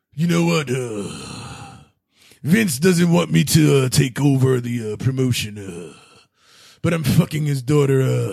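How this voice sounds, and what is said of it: Imitates a wrestler's voice. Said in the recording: “I give you a name. It's like Triple H. Go.”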